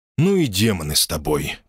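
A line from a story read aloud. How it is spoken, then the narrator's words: Grumble. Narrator (Russian): пробурчал я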